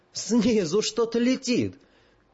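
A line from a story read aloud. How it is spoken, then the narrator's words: Shrill wailing. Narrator (Russian): Гера Кабан заголосил визгливо, совсем по бабье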